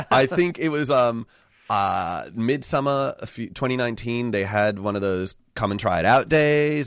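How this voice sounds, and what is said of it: American accent. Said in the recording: “you can hear from my accent, I grew up in the US”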